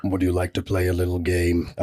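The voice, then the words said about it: Menacing horror-villain character voice. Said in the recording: “Could you do a Jigsaw voice right now?”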